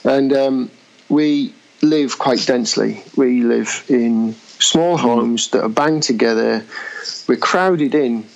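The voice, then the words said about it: English accent. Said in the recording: “might be able to tell from my accent, I'm from England”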